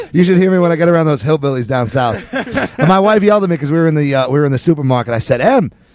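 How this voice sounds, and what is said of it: Strong New Jersey accent. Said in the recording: “you said underdog in the most New Jersey accent ever ... you forget that you have the accent.”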